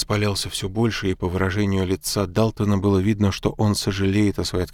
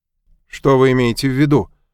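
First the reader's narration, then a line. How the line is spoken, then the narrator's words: Bark. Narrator (Russian): рявкнул Мак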